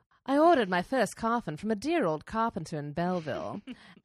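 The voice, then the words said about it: British mid-Atlantic accent. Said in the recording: “I'm going to give her a mid-Atlantic accent, like a British mid-Atlantic kind of combo”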